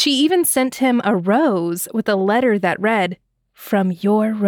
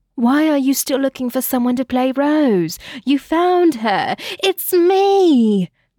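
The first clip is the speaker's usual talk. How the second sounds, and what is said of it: Bad put-on British accent. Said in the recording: “That's my horrible British accent.”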